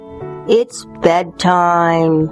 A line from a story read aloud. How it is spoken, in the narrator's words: sighed the moon drowsily